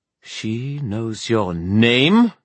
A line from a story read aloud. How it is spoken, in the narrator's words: the queen demanded, her voice rising